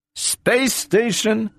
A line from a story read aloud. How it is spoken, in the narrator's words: said Donovan